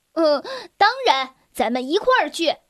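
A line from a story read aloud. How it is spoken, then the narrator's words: Laughing. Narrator (Chinese): 鲁鲁笑了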